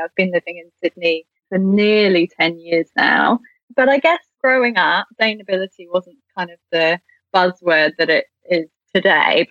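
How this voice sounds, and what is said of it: British accent. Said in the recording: “you might be able to tell from my accent, but I am originally from the UK”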